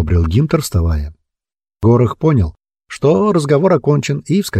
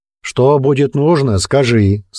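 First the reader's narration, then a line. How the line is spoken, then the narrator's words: Plain. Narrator (Russian): сказал Гинтер, прощаясь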